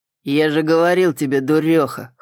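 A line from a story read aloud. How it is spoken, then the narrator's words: Snort. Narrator (Russian): хмыкнул Сойер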